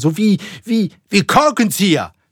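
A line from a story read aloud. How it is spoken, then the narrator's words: Called out. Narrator (German): rief Ahab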